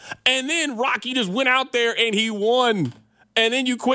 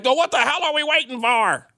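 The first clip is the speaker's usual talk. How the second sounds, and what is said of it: Impression of Mickey from Rocky. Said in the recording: “my Mickey impression. I think I kind of smoked that Mickey impression.”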